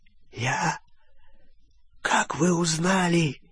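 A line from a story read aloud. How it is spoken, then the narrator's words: Hoarse, pleading. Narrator (Russian): прохрипел Олливандер, с мольбой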